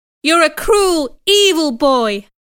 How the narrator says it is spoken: shouted

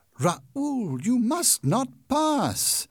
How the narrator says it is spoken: Christine cried

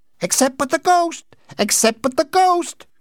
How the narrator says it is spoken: cried the twins

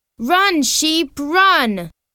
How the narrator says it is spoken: she shouts

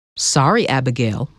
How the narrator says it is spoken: Michael said

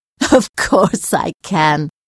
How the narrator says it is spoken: Sarah said, laughing

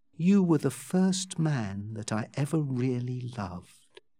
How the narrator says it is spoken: she said in an intentionally shy voice

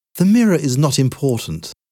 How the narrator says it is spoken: answered Hildegard

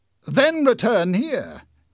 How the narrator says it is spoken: cried the inspector

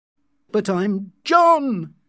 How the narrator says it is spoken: he shouted angrily

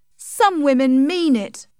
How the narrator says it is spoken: cried Tess angrily

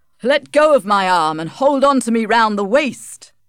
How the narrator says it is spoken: he shouted

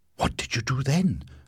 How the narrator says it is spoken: I asked eagerly

